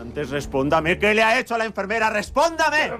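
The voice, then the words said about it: Loud, shrill high-pitched shouting. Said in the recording (Spanish): “¡Baje la voz! ... ¡Baje esa voz de pito que tiene”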